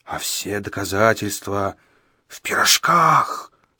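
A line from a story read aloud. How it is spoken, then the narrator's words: Menacing hoarse wheeze. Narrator (Russian): страшным голосом просипел средний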